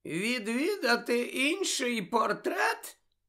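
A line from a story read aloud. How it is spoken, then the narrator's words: Squeaky, fake yawning. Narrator (Ukrainian): перепитав Фінеас писклявим голосом і доволі штучно позіхаючи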